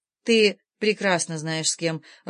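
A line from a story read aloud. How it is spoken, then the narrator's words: Even, level voice. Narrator (Russian): ровным голосом ответила она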